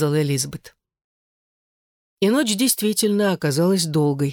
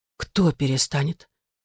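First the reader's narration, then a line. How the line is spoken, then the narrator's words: Whisper. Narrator (Russian): Эшлинг заговорила шепотом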